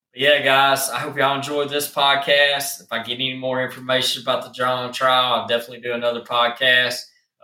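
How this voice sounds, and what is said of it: Southern country accent, slight slur. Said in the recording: “I'm from the South. I have a country accent, and sometimes it's hard. I have a little slur to me.”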